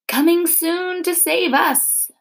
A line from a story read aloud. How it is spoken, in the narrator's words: they wailed